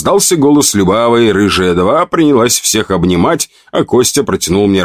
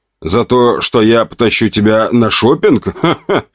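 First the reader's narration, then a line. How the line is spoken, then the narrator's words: Laughing. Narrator (Russian): рассмеялся я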